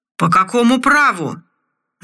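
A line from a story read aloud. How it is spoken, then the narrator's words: Slurred drunken yelling. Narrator (Russian): заорал заплетающимся языком командор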